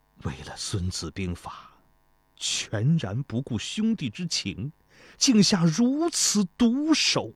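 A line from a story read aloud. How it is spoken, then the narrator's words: Sighing. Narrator (Chinese): 又叹道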